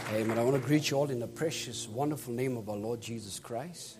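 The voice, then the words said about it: British accent. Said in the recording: “I hope my accent won't be too bad tonight. I'm British, so some of my words will be a bit different than yours ... my accent is different”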